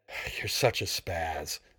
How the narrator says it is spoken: he snarled, while fighting to reel in the long tail of the portable 8-inch television

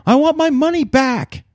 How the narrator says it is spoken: I yelled at the top of my lungs

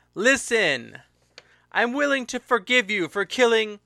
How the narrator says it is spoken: he called out

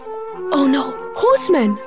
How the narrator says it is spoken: He gasped, well aware of the dangers of bandits in these parts

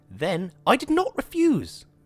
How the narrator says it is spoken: Vicky said hotly

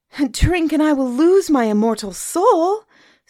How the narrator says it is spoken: Suni cried

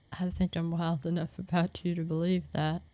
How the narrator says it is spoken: I laughed

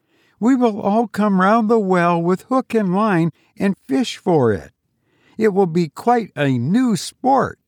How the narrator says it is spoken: said Olive, half laughing, half crying

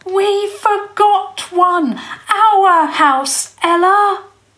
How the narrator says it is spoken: he managed to shout into her ear

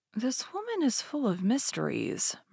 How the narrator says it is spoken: murmured D'Artagnan to himself

